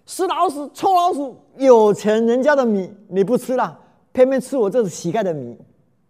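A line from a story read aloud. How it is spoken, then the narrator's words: Furious roar. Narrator (Chinese): 他非常生气的大声吼了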